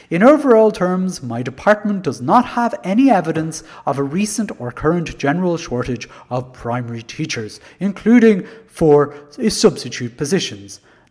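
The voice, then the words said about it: Poor impression of Richard Bruton. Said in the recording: “That's a very bad impression of Richard Bruton. Sounds nothing like him.”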